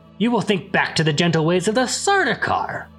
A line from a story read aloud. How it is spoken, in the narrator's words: Paul snapped